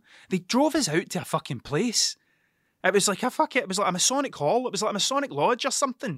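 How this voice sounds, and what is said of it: Broad Scottish accent. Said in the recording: “I am quite broad with the way that I speak. I have quite a broad Scots accent”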